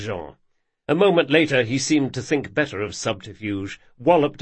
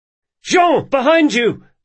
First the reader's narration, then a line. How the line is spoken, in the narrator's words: Locke yelled